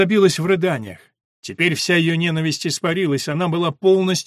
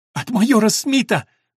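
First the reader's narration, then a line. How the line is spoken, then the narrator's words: Sobbing. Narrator (Russian): прорыдала Соня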